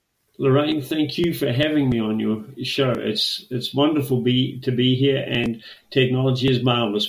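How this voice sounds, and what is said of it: Australian accent. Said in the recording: “traveling halfway around the world to Brisbane, Australia ... you will get to enjoy his fabulous accent”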